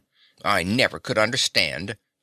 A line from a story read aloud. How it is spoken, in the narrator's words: he growled